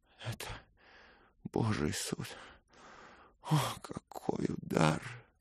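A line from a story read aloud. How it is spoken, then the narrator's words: Sobbing. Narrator (Russian): прорыдал он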